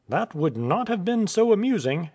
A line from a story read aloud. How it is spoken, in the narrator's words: exclaimed Nicholas